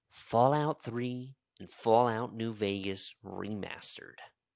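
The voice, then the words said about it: Imitates another person's voice. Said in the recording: “my Todd Howard impression ... It was good.”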